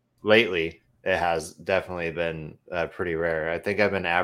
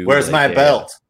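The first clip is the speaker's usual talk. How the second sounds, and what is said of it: Put-on redneck accent. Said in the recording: “you sounded like a very very redneckian”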